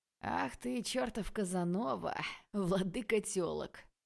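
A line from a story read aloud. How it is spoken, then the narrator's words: Laughing. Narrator (Russian): Рассмеялся Стас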